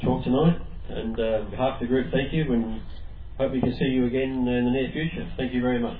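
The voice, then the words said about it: Slightly congested voice. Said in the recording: “I've got a bit of a cold coming from this air conditioner”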